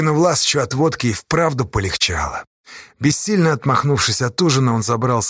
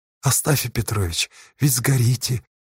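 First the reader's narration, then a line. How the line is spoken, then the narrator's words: Whisper. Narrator (Russian): услышал Осташа шепот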